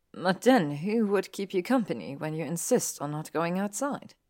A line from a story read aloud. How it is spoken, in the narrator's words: He chuckled